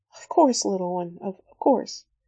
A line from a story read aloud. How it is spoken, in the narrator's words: Certainly not accustomed to such a display of emotion, murmuring